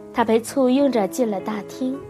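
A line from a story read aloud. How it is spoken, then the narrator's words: Smiling. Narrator (Chinese): 斯塔福德少校微笑道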